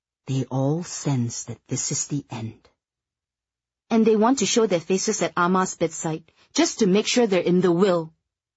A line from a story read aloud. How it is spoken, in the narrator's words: Eleanor cupping her hands over the cell phone and whispering rather indiscreetly